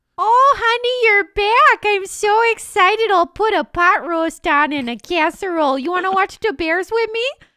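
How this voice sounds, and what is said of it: Put-on Chicago accent. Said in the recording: “That accent, though, is what happens as soon as you move into Chicago.”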